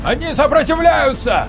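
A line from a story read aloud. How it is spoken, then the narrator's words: Shout. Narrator (Russian): выкрикнул Марков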